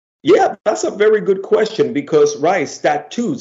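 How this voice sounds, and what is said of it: Bronx Spanish accent. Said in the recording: “my Bronx Spanish accent”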